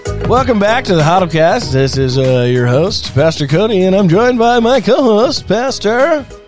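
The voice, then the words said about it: Radio DJ announcer voice. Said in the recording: “my radio DJ voice. I thought that was pretty good.”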